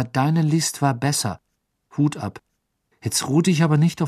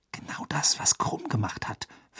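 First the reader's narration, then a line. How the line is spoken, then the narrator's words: Whisper. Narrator (German): flüsterte Hermine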